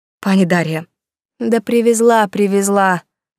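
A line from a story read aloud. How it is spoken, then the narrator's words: Sighing. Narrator (Russian): вздохнула девушка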